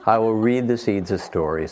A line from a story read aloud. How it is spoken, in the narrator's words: said Toad